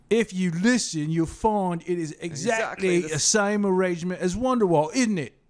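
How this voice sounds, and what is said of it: Put-on British accent. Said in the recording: “should I do it with my British accent?”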